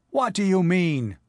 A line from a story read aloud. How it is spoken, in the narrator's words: he cried